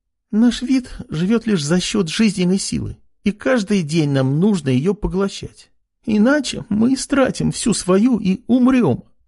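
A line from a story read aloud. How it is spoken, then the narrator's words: Tearful voice. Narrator (Russian): сквозь слезы говорила Ама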